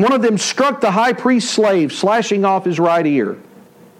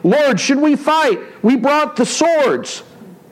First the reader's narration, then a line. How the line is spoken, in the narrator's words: They exclaimed